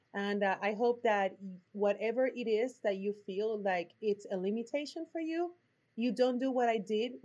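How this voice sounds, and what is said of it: Puerto Rican accent. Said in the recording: “My accent is from Puerto Rico”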